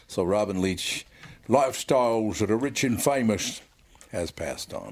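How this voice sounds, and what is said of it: Bad Robin Leach impression. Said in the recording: “That's the worst impression I've ever heard in my life.”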